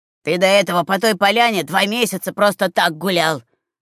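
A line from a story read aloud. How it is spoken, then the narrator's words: Grumbling from behind stove. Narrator (Russian): проворчал из-за печки Ахтун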